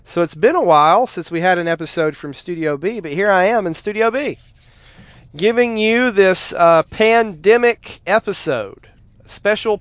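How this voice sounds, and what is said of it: Congested, stuffy-nosed voice. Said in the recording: “I have a cold. It may be strep throat ... I've had a stuffy nose and a cough”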